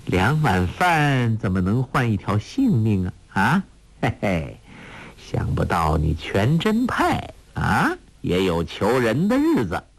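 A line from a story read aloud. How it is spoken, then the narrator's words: Laughing. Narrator (Chinese): 欧阳克笑道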